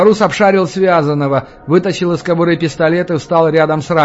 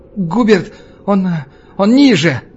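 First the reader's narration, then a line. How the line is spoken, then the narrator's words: Exhaled. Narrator (Russian): Кладовщик выдохнул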